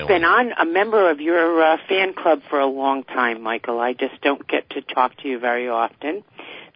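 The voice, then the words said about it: Rhode Island / Long Island accent. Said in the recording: “we have the same accent ... you sounded like you were from uh, Long Island ... I was trying to get rid of that accent”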